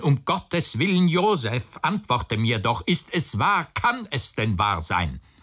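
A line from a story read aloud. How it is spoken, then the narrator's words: Anguished cry. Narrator (German): rief der Onkel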